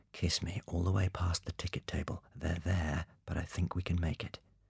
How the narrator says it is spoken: Bond whispered

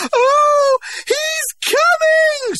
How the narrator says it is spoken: screamed Clara Detterding

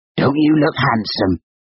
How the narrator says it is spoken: she croaked

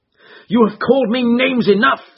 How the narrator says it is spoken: said he

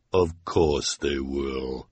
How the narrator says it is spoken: said the sinister woman in her deep, deep voice

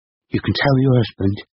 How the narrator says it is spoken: she said, her voice trembling

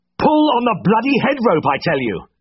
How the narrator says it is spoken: I bellowed at the top of my voice

